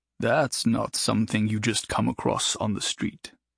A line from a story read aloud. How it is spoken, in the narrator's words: he muttered to himself